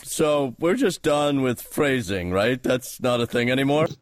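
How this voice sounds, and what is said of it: Good impression of Archer. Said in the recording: “Your Archer impression is pretty good.”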